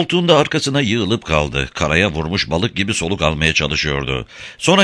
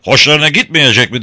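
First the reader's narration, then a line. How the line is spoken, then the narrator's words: Shouted. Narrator (Turkish): diye bağırdı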